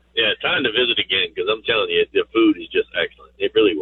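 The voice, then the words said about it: Slight South Louisiana accent. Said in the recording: “I'm from South Louisiana, you know. I've been here 22 years, but still, you know, I have a bit of an accent.”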